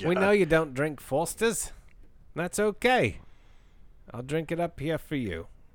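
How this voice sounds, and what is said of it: Bad put-on Australian accent. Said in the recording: “That's terrible. ... That was terrible. ... Australian person. email us and tell me how bad my accent was. ... It was terrible.”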